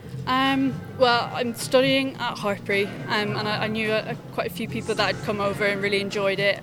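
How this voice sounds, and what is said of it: Irish accent. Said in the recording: “That's not a Gloucestershire accent that I detect. ... You've come over from Ireland?”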